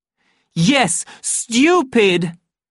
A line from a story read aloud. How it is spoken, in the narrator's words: He shouted